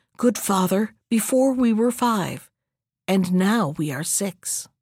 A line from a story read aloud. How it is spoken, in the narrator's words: the young man whispered